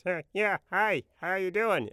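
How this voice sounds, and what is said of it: Imitates another person's funny way of talking. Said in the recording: “the boss at that video production house had kind of a funny way of talking ... my imitation”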